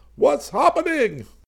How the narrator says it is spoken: Max bellowed

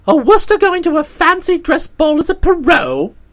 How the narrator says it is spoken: I said, and laughed shortly

